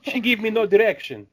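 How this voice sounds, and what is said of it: Put-on Italian accent. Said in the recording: “Wow, that was a good accent... Do we have anybody who's Italian here?... They sound nothing like that, by the way.”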